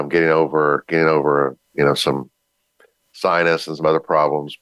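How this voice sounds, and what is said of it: Deep raspy voice. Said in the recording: “my deep voice. Please forgive my, my my raspy voice today.”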